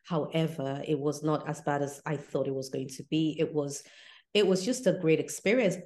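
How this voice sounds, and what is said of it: English accent. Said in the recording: “my English accent gets heightened”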